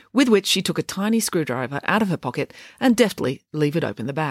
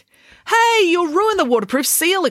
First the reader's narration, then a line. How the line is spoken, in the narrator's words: exclaimed Ian